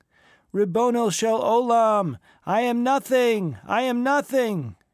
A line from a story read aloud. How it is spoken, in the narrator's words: cried the chazen